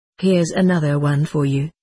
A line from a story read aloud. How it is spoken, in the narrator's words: said the orderly